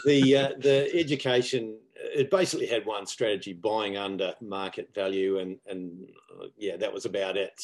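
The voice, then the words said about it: New Zealand accent. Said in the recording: “my glamorous accent, I'm actually from New Zealand.”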